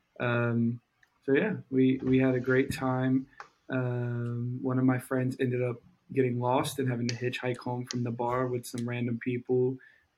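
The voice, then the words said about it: Hoarse, nearly lost voice. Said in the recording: “Sorry, my voice is still gone.”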